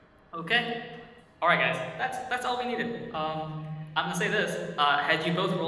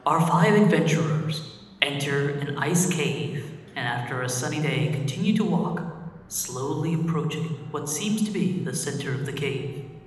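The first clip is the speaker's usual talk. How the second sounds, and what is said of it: Dramatic narrator voice. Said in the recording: “narrator voice”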